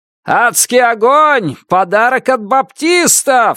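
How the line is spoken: Yell from the street. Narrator (Russian): заорал кто-то на улице

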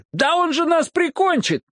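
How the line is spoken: Yelling in chorus. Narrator (Russian): Парни хором завопили

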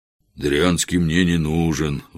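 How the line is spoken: Sighing reply. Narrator (Russian): вздохнул богатырь в ответ

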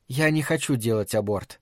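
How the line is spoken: Calm remark. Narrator (Russian): спокойно заметила Фрэнни

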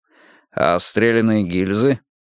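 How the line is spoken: Chuckling. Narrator (Russian): Бьёрнстад хохотнул

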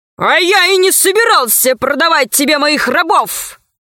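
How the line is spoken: Barking roar. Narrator (Russian): рявкнул левый крот

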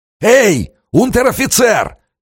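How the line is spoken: Hoarse distant yell. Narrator (Russian): издали хрипло заорал Романов

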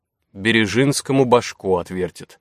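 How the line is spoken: Gloomy speculation. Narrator (Russian): мрачно предположил Чеботарев

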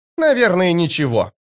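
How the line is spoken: Snapping. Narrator (Russian): огрызнулась она

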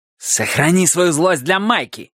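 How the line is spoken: Barked. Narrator (Russian): рявкнул Милос

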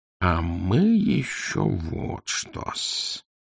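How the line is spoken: Purring. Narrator (Russian): промурлыкал он

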